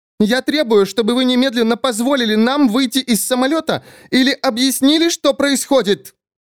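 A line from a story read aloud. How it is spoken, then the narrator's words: Screaming again. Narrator (Russian): Женщина на месте 11C опять завопила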